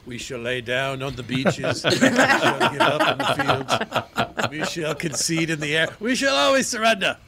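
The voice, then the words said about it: Good Winston Churchill impression. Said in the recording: “my accents ... That was a really good Winston Churchill, I thought. ... You pulled it off. ... either Churchill or Ed Asner”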